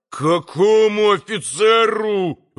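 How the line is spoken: Yelled. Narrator (Russian): вопил Митя

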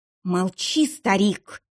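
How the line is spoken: Hissing young woman. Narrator (Russian): прошипела девица

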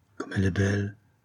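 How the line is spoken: Admiring murmur. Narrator (French): murmura-t-il avec admiration

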